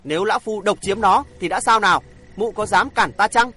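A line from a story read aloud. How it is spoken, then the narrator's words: Angry challenging. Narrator (Vietnamese): Không còn trầm tĩnh được nữa, địa hành tiên tức giận thách thức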